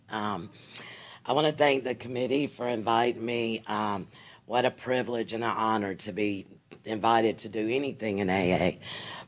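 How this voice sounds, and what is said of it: Hoarse, strained, fading voice. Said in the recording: “I'm about to lose my voice, so I hope it'll hold out.”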